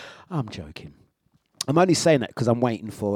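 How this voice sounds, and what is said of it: Usual voice. Nothing is said of it.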